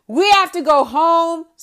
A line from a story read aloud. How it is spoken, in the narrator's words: screaming, getting really irate